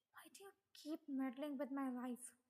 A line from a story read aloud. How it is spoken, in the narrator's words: He hissed